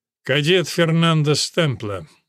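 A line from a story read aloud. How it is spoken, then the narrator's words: Gloomy colonel. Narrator (Russian): мрачно сказал полковник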